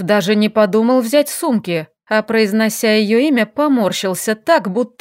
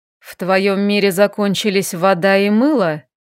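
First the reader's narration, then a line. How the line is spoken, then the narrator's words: Deep velvety voice. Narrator (Russian): произнес глубоким бархатным голосом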